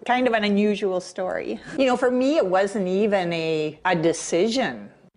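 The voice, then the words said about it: Minnesota Fargo accent. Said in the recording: “It's Minnesota, so she's got the Fargo accent”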